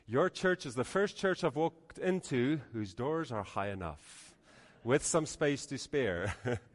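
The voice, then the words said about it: Mixed Dutch, Canadian, Afrikaans accent. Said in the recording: “why does he sound so strange? My accent is all messed up. It's a mixture of Dutch, Canadian, and actually Afrikaans.”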